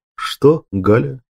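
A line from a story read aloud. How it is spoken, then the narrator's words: Tender question. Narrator (Russian): нежно спросил Григор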